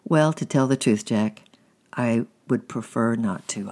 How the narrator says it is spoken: I answered

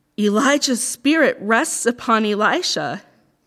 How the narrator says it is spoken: the group of prophets exclaimed

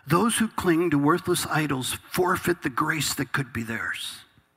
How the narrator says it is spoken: Jonah, from the belly of the fish, cries out and says

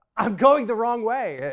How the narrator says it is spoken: I exclaimed

